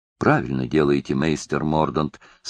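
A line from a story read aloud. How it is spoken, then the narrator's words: Plain. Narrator (Russian): сказал разносчик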